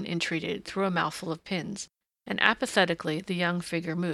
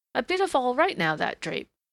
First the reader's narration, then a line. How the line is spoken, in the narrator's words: the woman chirped